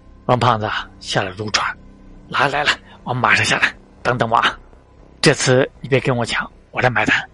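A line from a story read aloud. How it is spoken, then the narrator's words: Soft. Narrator (Chinese): 陈岚轻声说道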